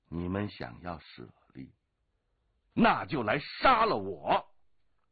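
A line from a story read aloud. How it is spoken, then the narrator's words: Angry shout. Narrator (Chinese): 龙八怒喝道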